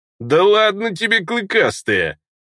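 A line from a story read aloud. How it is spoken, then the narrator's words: Cheerful laughter. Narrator (Russian): весело рассмеялся гном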